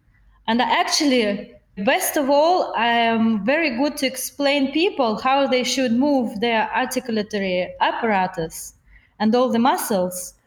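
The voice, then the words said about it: Non-native English accent. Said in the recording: “Don't mind my English accent. I never made a big effort to actually master it.”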